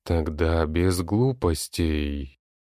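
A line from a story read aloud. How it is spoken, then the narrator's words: Hypnotic, frightening tone. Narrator (Russian): произнесла гипнотически пугающим тоном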